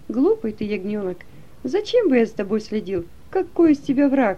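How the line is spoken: Laughing, amused. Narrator (Russian): он рассмеялся и сказал

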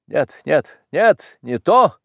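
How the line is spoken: Shouting, stamping foot. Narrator (Russian): закричал и топнул князь

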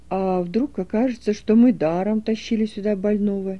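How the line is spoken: Sad exclamation, old man. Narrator (Russian): печально воскликнул старик

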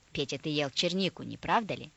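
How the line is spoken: Stern question, grandmother. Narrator (Russian): спросила строго бабушка

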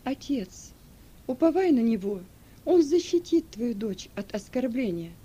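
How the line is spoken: Calm. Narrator (Russian): спокойно произнесла

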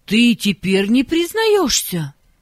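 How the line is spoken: Indignant. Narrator (Russian): возмущенно сказала учительница

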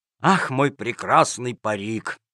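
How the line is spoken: Sad sigh. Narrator (Russian): вздохнул с грустью Джакамон

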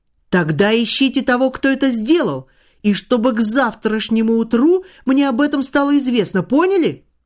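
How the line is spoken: Impatient exclamation. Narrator (Russian): нетерпеливо воскликнул Иван Кузьмич

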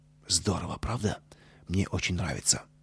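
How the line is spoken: Whisper. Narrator (Russian): Костя шепнул Пете

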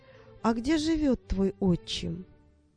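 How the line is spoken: Calm question. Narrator (Russian): Она продолжала спокойно спрашивать

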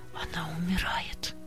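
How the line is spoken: Quiet. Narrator (Russian): тихо сказала сестра Нины Матвеевны

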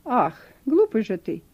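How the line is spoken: Angry. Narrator (Russian): произнесла она сердито

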